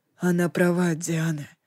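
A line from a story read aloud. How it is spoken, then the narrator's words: Mumble. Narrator (Russian): пробормотал Ликон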